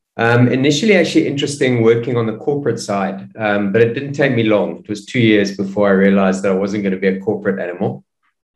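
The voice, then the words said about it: South African accent. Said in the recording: “the accent probably gives it away, but started down in South Africa”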